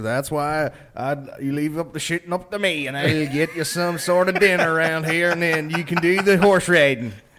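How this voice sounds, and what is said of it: Fake American Louisiana accent. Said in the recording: “I'm American from fucking Louisiana over there. But he was just in and out of this accent”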